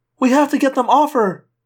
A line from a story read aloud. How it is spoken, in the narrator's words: Cassie cried when she saw me